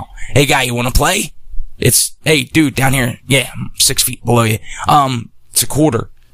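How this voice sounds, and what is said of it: Salesman pitch voice. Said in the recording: “in my sales voice”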